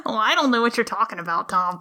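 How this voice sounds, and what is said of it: Put-on odd accent, devil character. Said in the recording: “Devil, what is this accent that you're doing?”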